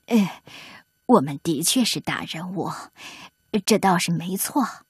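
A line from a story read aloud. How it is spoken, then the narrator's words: Hesitant muttering. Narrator (Chinese): 评委们迟疑的嘀咕着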